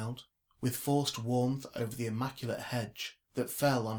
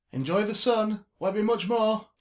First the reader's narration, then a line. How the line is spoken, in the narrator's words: Jimmy shouted at her retreat